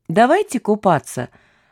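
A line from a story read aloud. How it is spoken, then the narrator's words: Cheerful. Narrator (Russian): сказала она весело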